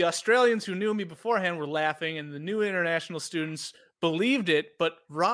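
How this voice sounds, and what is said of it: Usual voice. Nothing is said of it.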